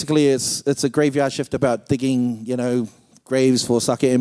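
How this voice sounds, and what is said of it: Usual voice. Nothing is said of it.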